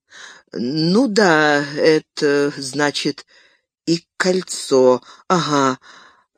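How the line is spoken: Stammering. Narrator (Russian): начал заикаться Бильбо

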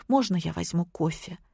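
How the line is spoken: Quiet, plaintive question. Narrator (Russian): Жалобно глянув на Владимира, я тихо спросила

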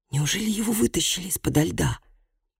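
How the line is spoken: Whispered. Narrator (Russian): прошептал он

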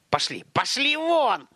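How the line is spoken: Sharp scolding shout. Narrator (Russian): прикрикнул он

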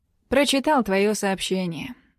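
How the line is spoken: Plain. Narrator (Russian): говорит

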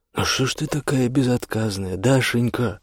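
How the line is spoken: Old man, affectionate. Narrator (Russian): ласково заговорил с младшей внучкой дед

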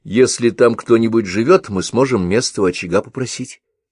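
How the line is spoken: Plain. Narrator (Russian): сказала она

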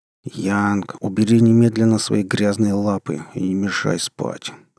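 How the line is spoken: Groggy displeased grumble. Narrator (Russian): Недовольно заворчал, мучительно выплывая из тягостной дремы

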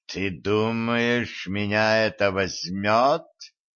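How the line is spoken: Hissing vampire. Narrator (Russian): прошипел вампир

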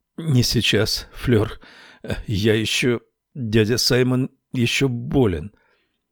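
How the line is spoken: Strained, forced out. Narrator (Russian): выдавил

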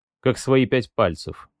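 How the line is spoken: Muttered. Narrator (Russian): пробормотал я

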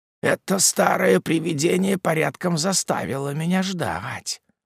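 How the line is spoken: Muttering to himself. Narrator (Russian): пробормотал он, как бы говоря сам с собою

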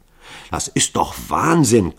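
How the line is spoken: Panting. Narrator (German): keuchte Hall

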